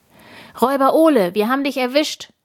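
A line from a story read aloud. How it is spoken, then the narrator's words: Loud shout. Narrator (German): ruft Tina laut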